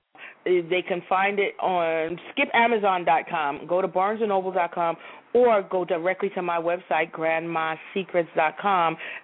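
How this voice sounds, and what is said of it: New York Brooklyn accent. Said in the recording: “you definitely have a New York accent ... Brooklyn, baby, born and raised.”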